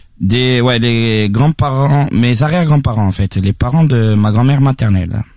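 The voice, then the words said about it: Odd mixed Corsican-Parisian French accent. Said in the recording (French): “une rechute une fois avec son accent parisien, en fait, c'est un vrai parisien ... là, t'as l'accent différent, mec. ... T'as l'accent bizarre pour les deux coups, là, en même temps. Ça fait très bizarre.”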